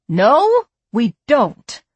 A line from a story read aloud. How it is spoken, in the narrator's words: Farkas said, her voice and her ire rising